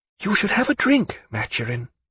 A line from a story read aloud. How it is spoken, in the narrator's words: she whispered